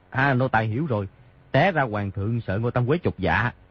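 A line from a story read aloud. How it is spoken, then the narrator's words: Soft, pleased voice. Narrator (Vietnamese): Di Tiểu Bảo cảm mừng, khẽ nói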